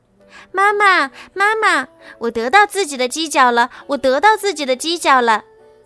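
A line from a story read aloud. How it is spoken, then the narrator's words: Happy shouting while running. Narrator (Chinese): 一边跑一边高兴地叫着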